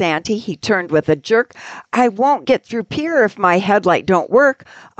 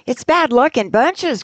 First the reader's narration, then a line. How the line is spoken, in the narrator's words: cried Santa, depressed